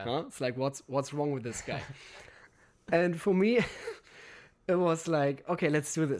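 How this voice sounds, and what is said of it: Funny foreign accent. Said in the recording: “with this funny accent”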